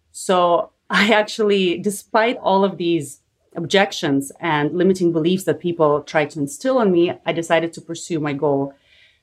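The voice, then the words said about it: Slight Eastern European accent. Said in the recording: “as you can hear, I have a bit of an accent, an Eastern European one”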